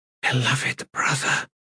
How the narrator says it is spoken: she whispered

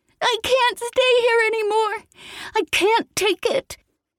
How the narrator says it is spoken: a scorching scream

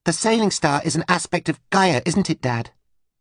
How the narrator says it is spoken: Anita asked urgently

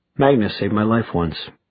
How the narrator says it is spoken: added Raphael in an emotionless voice

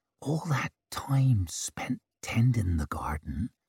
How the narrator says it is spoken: she whispered

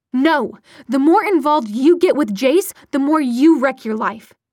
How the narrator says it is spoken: her mother snapped back

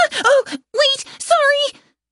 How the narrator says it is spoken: Head Scratcher yelped

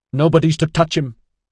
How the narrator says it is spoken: yelled abruptly

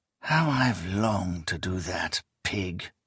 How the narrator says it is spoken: the man whispered

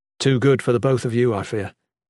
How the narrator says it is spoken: Jen said flatly

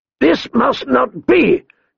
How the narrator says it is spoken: Kotho thundered

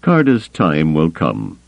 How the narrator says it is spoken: Thrawn told him, his voice still calm but noticeably cooler

